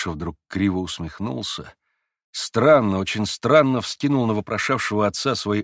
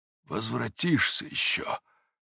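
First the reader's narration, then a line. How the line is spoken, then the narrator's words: Whispered with sorrowful surprise. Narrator (Russian): прошептал отец Паисий, с горестным удивлением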